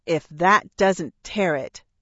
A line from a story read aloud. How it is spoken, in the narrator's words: I snarled